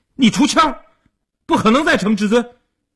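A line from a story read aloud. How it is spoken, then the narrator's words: Clamoring. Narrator (Chinese): 一边嚷嚷着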